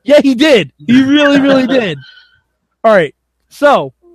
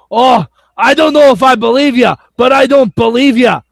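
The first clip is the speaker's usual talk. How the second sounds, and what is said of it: Imitates another person's voice. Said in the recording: “my Drew Galloway impression? ... It's on point? ... Yeah, it's pretty good.”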